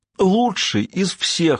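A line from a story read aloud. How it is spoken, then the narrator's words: Speaking, then sobbing. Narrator (Russian): сказал Па и зарыдал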